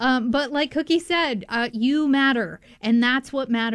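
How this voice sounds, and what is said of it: Usual voice. Nothing is said of it.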